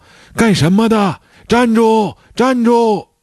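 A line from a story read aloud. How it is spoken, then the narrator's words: Loud shout. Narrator (Chinese): 有个人大喊道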